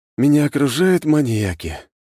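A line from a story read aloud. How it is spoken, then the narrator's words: Sighing. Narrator (Russian): вздохнул я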